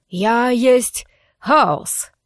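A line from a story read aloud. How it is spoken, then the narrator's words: Thunderous bass bark. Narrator (Russian): Сказал, нет, рявкнул, шар, таким громогласным басом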